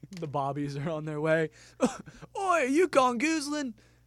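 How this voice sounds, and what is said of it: Attempted British accent. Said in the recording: “I can't do a British accent and jokes at the same time.”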